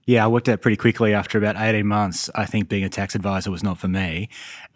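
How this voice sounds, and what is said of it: Australian accent. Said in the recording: “So in Sydney. So my accent is not from around here in Charlotte.”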